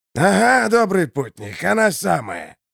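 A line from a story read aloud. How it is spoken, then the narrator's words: Hoarse voice. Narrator (Russian): ответил некто хриплый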